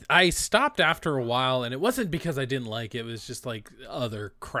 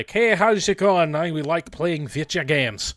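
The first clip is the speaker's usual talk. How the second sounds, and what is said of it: Put-on thick Irish accent. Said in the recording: “seriously like thick Irish accent”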